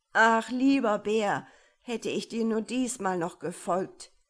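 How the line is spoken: Calling out. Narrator (German): rief

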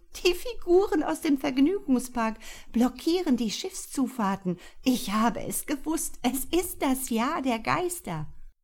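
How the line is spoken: Giggling. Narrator (German): sie kicherte

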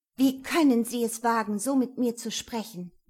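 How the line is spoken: Angry hiss. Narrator (German): zische ich wütend

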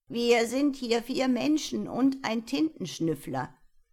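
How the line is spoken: Clear voice. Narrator (German): sagte Tintonius mit klarer Stimme

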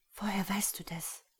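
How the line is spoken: Whisper. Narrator (German): flüsterte sie

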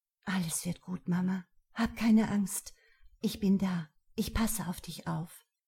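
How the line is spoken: Very calm whisper. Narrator (German): flüsterte nur ganz ruhig

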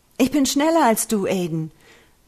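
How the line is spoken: Mock-exuberant shout. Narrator (German): rief Julian gespielt übermütig

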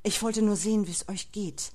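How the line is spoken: Murmur. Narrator (German): murmelte Frowin

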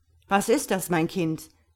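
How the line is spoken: Astonished exclamation, king. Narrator (German): rief der König erstaunt

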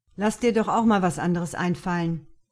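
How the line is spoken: Call across. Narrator (German): rief er zu Luke hinüber

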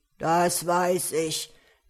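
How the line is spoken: Ogre growling. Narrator (German): knurrte der Menschenfresser

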